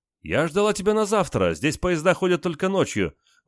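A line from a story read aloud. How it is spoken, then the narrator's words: Excited exclamation. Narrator (Russian): воскликнула Валя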